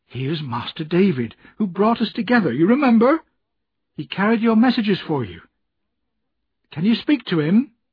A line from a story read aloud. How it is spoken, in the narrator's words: she said almost cheerfully